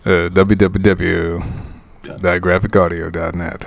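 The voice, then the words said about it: Deeper announcer-style voice imitation. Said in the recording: “you got to lean in and give us a little deeper resonance ... It's not even close. It's not even close. I'm a pretender to the throne.”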